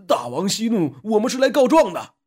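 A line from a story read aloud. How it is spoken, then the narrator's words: Hurried men's plea. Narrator (Chinese): 那12个大汉急忙说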